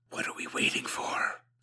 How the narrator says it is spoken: Suko hissed

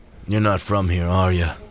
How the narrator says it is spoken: the unkempt man chuckled

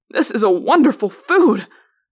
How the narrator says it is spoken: cried

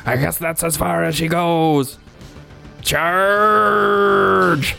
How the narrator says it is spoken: Captain Slab at the helm shouts

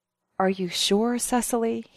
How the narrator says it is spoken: He whispered

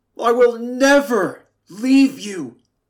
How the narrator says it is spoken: the sea roared

